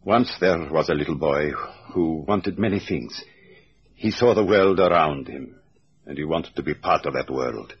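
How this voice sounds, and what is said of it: Baltic or Finnish accent. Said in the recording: “Your accent's given me that already. ... I'd say Lithuania, Latvia, Estonia, or Finland. It's one of the four.”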